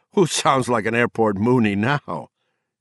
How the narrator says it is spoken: Gardner asked, laughing a little

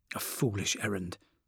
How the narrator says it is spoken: he muttered

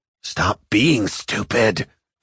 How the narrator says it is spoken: she whisper yelled

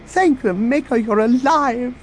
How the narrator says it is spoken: the droid exclaimed

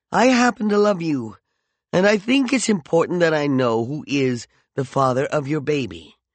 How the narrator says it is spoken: he sighed

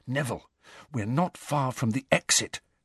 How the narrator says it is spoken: Harry whispered

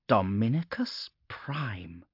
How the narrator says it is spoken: she breathed, and her voice clicked with still healing damage

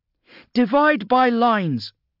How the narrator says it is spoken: shouted Loa to the cohort waiting behind them

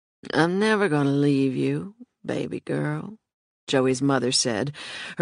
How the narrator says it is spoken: her words slurring

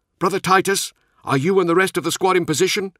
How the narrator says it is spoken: he called out

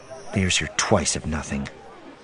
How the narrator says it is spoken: muttered

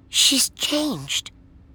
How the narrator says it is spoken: Jo whispered

